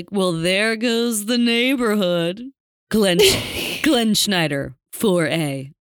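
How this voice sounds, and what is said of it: Impression of Glenn Schneider. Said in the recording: “can I do an impression of Glenn Schneider?”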